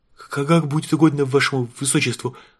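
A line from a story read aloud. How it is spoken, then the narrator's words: Timid babbling. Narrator (Russian): пролепетал барон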